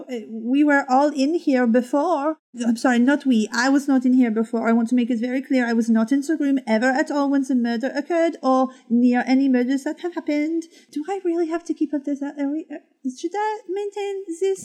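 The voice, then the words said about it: Put-on French accent. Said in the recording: “The French accent was working for me. ... It's exhausting to maintain.”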